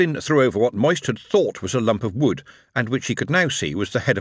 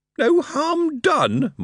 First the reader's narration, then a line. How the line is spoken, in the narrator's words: Moist wailed